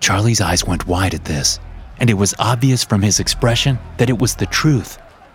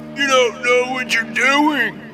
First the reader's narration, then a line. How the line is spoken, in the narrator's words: Munson screamed